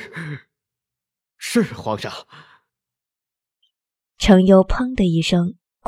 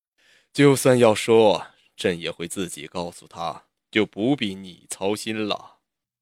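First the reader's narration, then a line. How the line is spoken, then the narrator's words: Calm, smiling. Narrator (Chinese): 魏凌风嘴角笑容更深，淡淡道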